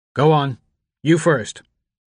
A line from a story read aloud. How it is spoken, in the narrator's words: his father said